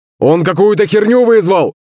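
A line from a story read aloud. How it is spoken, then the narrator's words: Bandit's shout. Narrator (Russian): закричал один из бандитов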